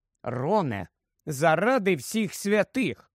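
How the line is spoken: Stern reproach, secretly pleased. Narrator (Ukrainian): суворо дорікнула йому, хоча було видно, що сказане їй подобається

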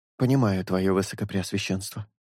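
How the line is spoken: Nervous mutter. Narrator (Russian): пробормотал Росомаха, нервно облизнув губы

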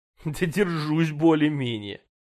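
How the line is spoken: Almost laughing. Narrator (Russian): чуть не рассмеялась та

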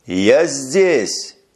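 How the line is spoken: Shouting into wind. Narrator (Russian): крикнул он в ветер

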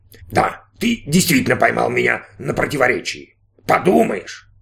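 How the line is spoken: Robot scoffing. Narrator (Russian): хмыкнул робот

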